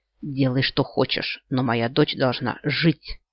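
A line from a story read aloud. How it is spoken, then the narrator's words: Spluttering hiss. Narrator (Russian): прошипел он, брызгая слюной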